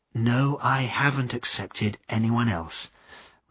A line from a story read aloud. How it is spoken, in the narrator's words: replied Nancy quietly, with a blush